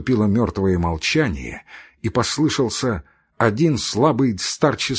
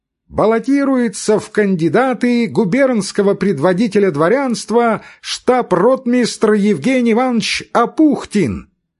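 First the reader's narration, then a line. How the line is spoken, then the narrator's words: Thin loud proclamation. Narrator (Russian): человек в мундире тонким громким голосом провозглашал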